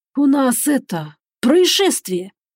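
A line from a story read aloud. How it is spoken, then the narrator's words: Forced out with difficulty. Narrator (Russian): выдавил из себя старший помощник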